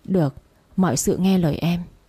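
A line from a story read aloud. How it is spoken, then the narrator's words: Gentle smiling. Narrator (Vietnamese): Cậu nghe vậy khóe miệng khẽ cười, mà nói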